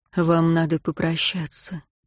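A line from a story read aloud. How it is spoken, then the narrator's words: Quiet. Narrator (Russian): тихо сказал он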